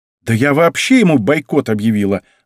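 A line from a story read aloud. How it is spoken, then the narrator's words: Exclamation. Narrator (Russian): воскликнула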